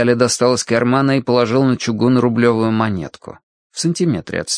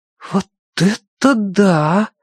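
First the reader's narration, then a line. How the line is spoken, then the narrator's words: Breathless exhale. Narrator (Russian): выдохнул Тенька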